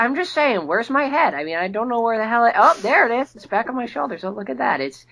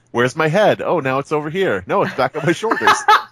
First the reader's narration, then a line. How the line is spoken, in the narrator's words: in the Steve Buscemi voice, can you say